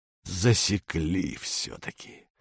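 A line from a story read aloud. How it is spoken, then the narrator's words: Hoarse mutter. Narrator (Russian): бормочет хрипло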